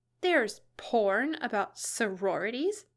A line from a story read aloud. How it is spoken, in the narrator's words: Elle spluttered